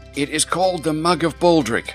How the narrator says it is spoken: I yelled over the chatter of the mob

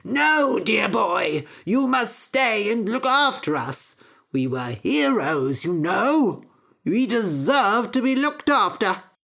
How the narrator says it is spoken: his parents cried

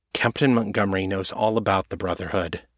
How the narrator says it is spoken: Michael said

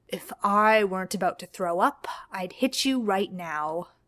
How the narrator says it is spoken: Dean groaned

